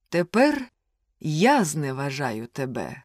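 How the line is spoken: Plain. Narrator (Ukrainian): сказав він

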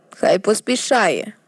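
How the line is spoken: Grumble. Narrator (Ukrainian): буркнув Візерис

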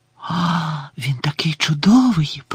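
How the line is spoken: Whisper. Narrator (Ukrainian): прошепотіла Лаванда

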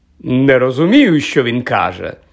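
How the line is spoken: Loud. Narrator (Ukrainian): голосно мовив Локарт

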